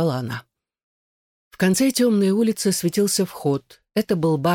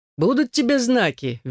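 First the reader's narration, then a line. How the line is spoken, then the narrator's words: Cheerful reply. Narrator (Russian): весело откликнулся Роже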